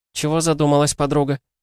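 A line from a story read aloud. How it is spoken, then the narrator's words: Cheerful question. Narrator (Russian): весело спросила Кристина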